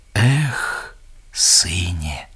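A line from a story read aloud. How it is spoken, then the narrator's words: Old crane's sigh. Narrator (Belarusian): уздыхнув старый журавель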